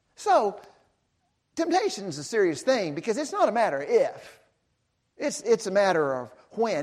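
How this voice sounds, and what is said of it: Speaks with a noticeable accent. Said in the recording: “which I'm sure you can tell by my accent”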